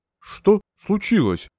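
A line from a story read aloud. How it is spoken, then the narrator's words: Slightly stammering question. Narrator (Russian): слегка запинаясь, спросил Горбунов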